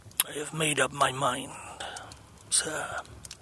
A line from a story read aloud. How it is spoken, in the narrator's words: he began, speaking in a tone but a little above a whisper